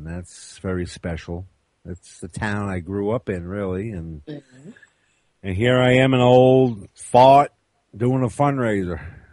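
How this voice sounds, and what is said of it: Deep northern accent, slightly hillbilly. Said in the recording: “an accent that just is beyond. You're so northern ... got a little bit of hillbilly ... yours is a deep northern draw”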